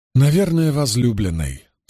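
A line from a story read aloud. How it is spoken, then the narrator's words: Dry. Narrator (Russian): сухо отозвался Мэтт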